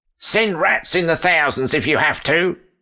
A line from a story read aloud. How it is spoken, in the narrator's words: Queen Guinevere shouted